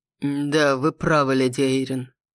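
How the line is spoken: Dull, muffled male voice. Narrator (Russian): глухим голосом проговорил мужчина

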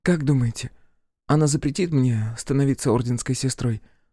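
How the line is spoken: Weary question. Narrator (Russian): спросила Ер устало

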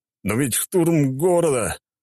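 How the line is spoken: Exclaimed. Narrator (Russian): воскликнул

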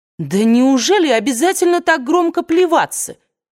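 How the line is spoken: Exclaiming, voice ringing with irritation. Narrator (Russian): воскликнула Индия звенящим от раздражения голосом

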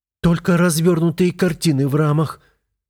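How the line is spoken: Fast trembling voice. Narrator (Russian): быстрым дрожащим голосом отвечает она

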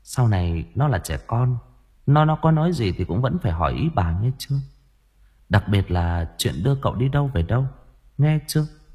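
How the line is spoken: Sighing, softened voice. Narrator (Vietnamese): Bà Hoàng thở dài, giọng bà cũng dịu đi

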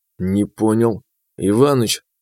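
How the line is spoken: Pensive mutter. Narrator (Russian): задумчиво пробормотал я

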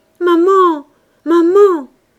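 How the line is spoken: Voice breaking in sobs. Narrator (French): qui se brisait dans leurs sanglots

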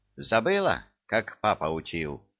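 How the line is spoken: Stern question. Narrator (Russian): Строго спросила левая

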